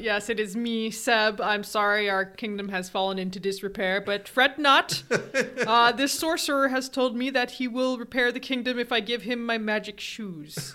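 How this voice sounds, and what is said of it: Put-on royal king voice. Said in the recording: “I wasn't expecting you to do a voice.”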